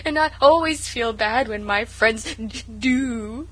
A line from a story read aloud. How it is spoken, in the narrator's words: sobbed Sarah